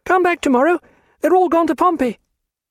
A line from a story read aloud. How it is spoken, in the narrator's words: Charlotte only glanced round and cried